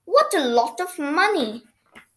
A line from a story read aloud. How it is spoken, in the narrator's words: cried Noddy